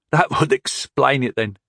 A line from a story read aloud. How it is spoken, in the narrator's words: chuckled Bannermore